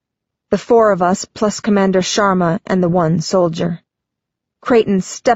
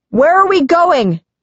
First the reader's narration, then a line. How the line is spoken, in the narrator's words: Creighton yells over his shoulder